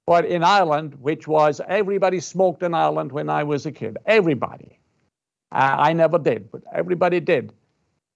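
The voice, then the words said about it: Irish accent. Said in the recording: “I'm Irish. And I'm from Ireland, you can probably gather. ... from my accent.”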